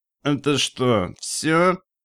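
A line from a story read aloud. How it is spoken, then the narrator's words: Nasal mumble. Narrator (Russian): промямлил он гнусавым голосом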